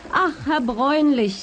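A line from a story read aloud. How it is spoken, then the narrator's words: Resolute middle-aged woman calling. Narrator (German): rief die resolute Frau im besten Alter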